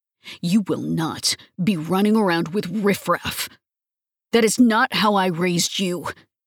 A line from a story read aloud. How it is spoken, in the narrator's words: he snarls over his shoulder